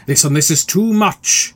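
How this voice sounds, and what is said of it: Raised, loud voice. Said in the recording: “I'm sorry to raise my voice.”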